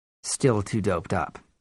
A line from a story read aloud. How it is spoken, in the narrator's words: I said